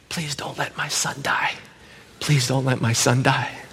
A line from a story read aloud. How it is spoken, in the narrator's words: all I could whisper back to God was